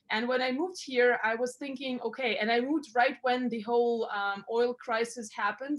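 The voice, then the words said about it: Foreign, non-Canadian accent. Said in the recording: “as you can hear, I'm not really Canadian because I have an accent... That's not a Canadian accent?... No, it's not.”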